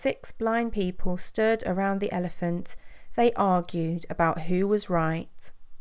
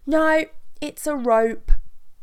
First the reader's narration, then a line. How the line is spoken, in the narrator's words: It swished so much that he nearly fell over as he shouted